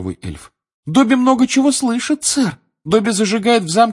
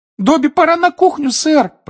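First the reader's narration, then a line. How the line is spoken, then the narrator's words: Squeaky voice from hallway. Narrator (Russian): пропищал Добби в коридоре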